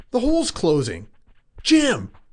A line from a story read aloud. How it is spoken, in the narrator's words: gasped